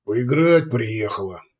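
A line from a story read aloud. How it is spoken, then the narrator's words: Grumbling. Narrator (Russian): пробурчал Кудияр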